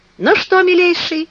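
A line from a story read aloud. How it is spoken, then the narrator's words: Exclaimed. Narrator (Russian): воскликнул репортер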